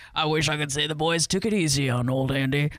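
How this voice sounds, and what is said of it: Imitates another person's voice. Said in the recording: “my Morgan Freeman impression”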